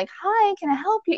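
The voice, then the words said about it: Polite customer service voice. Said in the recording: “Your customer service voice comes on ... my customer service voice is on point”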